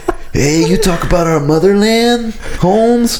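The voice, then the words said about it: Put-on Mexican accent. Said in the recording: “speaking Iranian with a Mexican accent”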